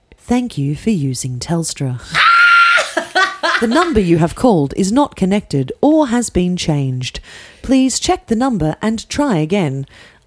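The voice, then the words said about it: Formal recorded-announcement voiceover voice. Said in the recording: “do your best voiceover voice ... That was quite good.”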